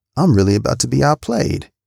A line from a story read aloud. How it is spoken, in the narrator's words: I chuckled to myself